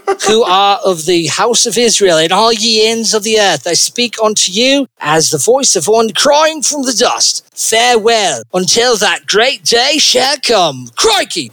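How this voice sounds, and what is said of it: Attempted Australian accent. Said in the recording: “just swear and it'll sound instantly Australian... that was more like a Cockney accent... if you get to Cockney, you're almost there”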